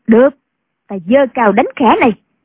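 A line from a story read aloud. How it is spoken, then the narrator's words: Shouting. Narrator (Vietnamese): Định Giật quát lên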